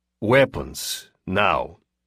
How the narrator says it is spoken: the man on the right said in thickly accented English

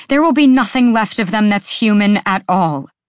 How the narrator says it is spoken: Bryce shouted

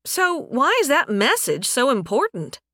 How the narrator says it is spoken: Euphala said

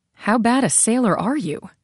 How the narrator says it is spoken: she asked

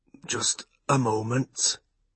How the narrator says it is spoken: he said huskily to his son

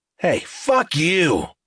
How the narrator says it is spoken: Talbert snarled right in his face, confrontational and bellowing

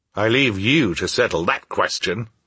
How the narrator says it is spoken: I said crossly

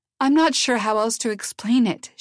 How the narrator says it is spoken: she said, her voice beginning to break

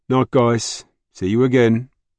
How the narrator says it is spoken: called out

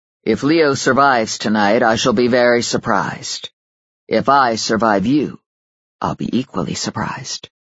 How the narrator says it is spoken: said in a reasonable tone

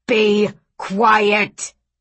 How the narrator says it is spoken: thundered Granddad

